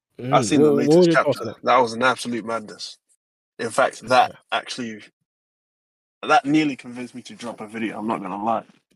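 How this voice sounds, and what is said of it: UK accent. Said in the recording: “I did not know you had an accent. I swear to God, you did not have that accent like 30 seconds ago. ... that's how it's like in the UK”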